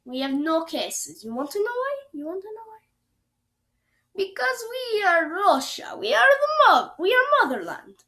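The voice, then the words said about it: Bad put-on Russian accent. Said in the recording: “my really bad Russian accent”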